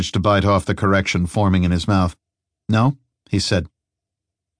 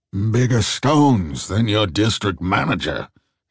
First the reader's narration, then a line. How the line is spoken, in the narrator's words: he muttered